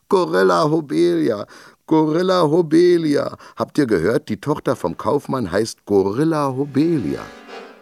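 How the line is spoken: Children roaring with laughter. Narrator (German): Die anderen Kinder lagen vor Lachen über ihren Tischen und brüllten

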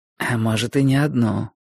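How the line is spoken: Whisper in the ear. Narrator (Russian): шепнул мне на ухо Борис

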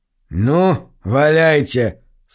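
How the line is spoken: Defiant grumble. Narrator (Russian): с вызовом буркнул Чейн

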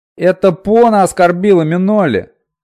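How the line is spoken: Indignant yelling. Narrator (Russian): возмущенно завопил Пьемур

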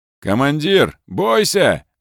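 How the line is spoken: Barked warning. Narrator (Russian): рявкнул Ленивцев

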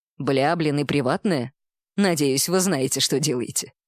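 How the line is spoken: Wry snort. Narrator (Russian): хмыкнул дядя

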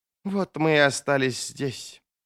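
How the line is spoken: Muttered. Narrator (Russian): пробормотала Арди

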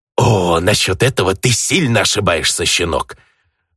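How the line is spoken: Sudden vicious hiss. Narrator (Russian): Внезапно окрысившись, прошипел незваный гость

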